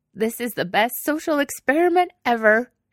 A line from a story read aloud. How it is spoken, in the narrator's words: she said, sniffling loudly into her sleeve